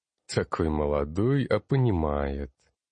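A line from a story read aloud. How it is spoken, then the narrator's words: Chuckling. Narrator (Russian): хохотнул Зарок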